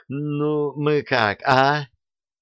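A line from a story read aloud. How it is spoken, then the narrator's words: Pleading, drawn out. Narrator (Russian): просительно протянул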